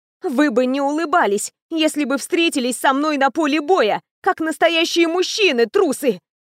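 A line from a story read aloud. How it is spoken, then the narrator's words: Roaring. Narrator (Russian): Проревела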